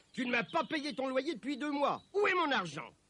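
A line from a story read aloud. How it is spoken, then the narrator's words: Shouted. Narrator (French): Cria-t-il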